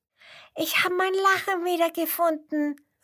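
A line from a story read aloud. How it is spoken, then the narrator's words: Frog calling, overjoyed. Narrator (German): ruft der Frosch überglücklich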